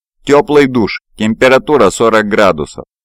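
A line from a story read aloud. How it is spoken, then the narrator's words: Loud. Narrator (Russian): громко произнесла она в сторону потолка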